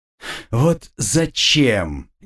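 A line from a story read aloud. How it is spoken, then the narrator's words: Displeased grumble. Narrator (Russian): недовольно проворчал ворон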